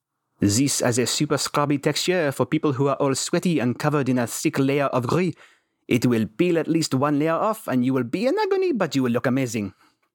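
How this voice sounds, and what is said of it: Put-on French accent. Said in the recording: “In a very accurate French accent ... Random Northwest European.”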